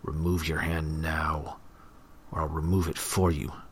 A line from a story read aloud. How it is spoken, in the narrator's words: he growled